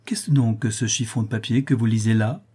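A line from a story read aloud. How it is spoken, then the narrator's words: Cheerful. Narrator (French): dit gaiement Rigolette à Rodolphe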